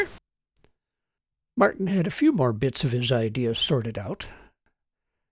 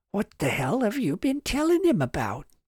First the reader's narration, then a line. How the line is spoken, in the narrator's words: Charles snapped in a whisper